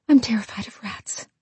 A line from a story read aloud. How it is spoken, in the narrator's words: Evelyn whispered